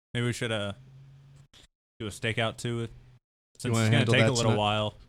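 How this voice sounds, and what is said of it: Sudden put-on character accent. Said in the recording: “your accent changed real fast ... He's talking in a character.”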